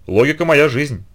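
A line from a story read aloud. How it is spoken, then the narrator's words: Scoffing snort. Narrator (Russian): хмыкнул Сэндерс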